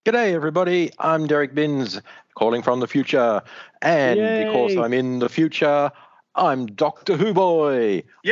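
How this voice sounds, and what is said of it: Distinctive unusual accent. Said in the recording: “I thought I heard a funky accent.”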